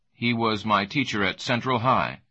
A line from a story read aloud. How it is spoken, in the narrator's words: said Jonathan Hughes quickly